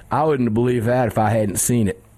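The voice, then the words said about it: Imitates another person's voice. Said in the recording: “I'll try to do my best A.W.R. impersonation.”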